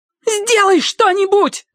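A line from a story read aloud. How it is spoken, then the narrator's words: Shriek. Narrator (Russian): завизжала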